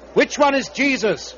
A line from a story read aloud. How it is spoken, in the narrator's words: They cried